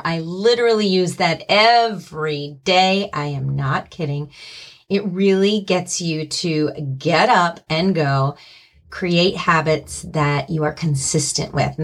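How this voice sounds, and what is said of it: Hoarse voice, cracking slightly. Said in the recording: “my voice cracking a little bit? ... a little bit of laryngitis”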